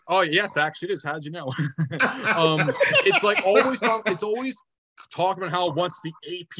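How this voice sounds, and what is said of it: Usual voice. Nothing is said of it.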